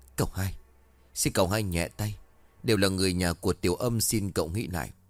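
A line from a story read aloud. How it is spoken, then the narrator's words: Trembling pleading old man. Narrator (Vietnamese): Lão run rẩy nói trong khẩn khoản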